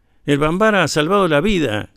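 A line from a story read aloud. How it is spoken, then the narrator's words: Shouting. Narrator (Spanish): gritaba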